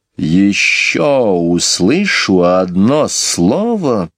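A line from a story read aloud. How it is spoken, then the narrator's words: Very menacing voice. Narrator (Russian): сказала Мэри Поппинс таким особенно грозным голосом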